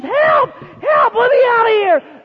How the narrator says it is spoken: he started screaming at the top of his lungs

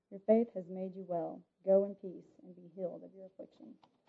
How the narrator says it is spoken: he replied gently

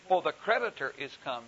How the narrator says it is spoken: she said

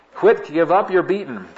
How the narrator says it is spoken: shout and plead

